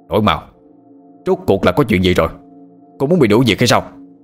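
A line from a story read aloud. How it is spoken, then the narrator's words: Angry shout. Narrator (Vietnamese): viện trưởng Lâm tức giận quát lên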